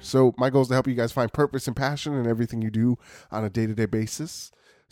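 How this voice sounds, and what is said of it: Congested, sick-sounding voice. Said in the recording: “I sound a little congested. I'm sick.”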